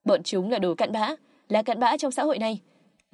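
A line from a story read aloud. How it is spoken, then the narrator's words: Raised voice. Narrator (Vietnamese): cao giọng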